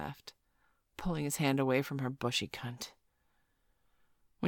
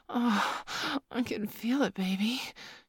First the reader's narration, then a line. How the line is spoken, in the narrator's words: she moaned